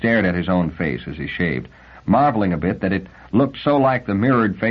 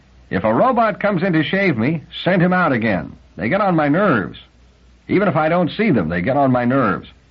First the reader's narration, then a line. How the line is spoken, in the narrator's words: He shouted